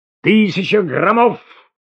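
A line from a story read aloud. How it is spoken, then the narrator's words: Shouted. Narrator (Russian): закричал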